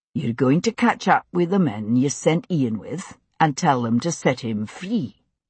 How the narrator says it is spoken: Jamie said evenly

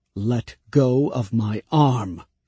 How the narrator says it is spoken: said Laurent, in a controlled voice

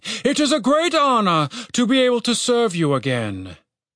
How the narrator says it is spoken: he said solemnly

